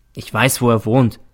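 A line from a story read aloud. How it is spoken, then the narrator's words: Plain. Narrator (German): sagte ich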